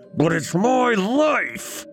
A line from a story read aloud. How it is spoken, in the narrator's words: he roared